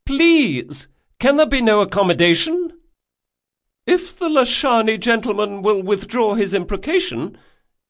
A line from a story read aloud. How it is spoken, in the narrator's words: added the younger duelist, his voice was high and nervous